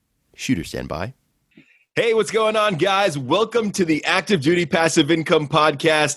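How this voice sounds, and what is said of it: Polished radio-announcer voice. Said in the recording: “you have a fantastic radio voice”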